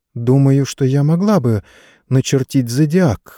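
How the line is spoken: Uncertain. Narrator (Russian): неуверенно сказала леди Катрин

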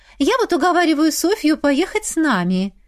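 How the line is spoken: Cheerful declaration. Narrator (Russian): весело заявила Лера

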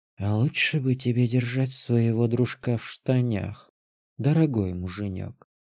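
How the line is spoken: Hot whisper in the ear. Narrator (Russian): прошептала Танша мне на ухо жарко

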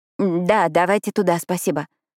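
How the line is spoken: Forced strained words. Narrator (Russian): выдавила Пиппа

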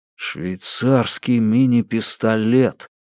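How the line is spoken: Muttered under breath. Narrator (Russian): пробормотал жук-носорог себе под нос

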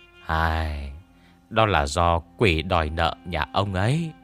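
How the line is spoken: Sighing. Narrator (Vietnamese): Lý Nhị Nha chép miệng thở dài

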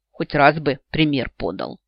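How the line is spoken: Grumbling under breath. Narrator (Russian): под нос пробурчала я

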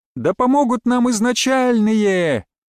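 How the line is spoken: Joyful shout. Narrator (Russian): радостно прокричала Нанна

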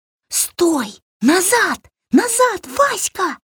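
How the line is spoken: Whispered shout. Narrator (Russian): шепотом закричала Варя

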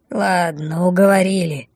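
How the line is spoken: Grumbling. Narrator (Russian): проворчала невидимая мина

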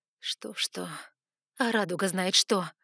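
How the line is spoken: Despairing groan. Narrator (Russian): Я застонала от отчаяния

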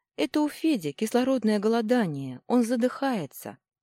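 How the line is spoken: Sad reply. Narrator (Russian): ответила печально

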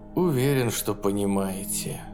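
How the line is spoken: Sighing. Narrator (Russian): Вздохнул Саймонс

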